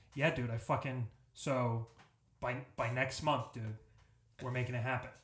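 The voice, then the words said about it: Impression with a Boston accent. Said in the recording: “I can do a pretty good Thatcher impression ... It was just a Boston accent.”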